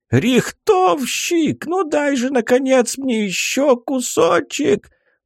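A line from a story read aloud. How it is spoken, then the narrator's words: Old man wailing. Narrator (Russian): взвыл старик Куций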